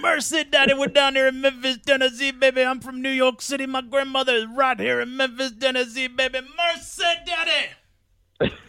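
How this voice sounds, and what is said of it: Jimmy Valiant impression. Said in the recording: “your handsome Jimmy Valiant impression”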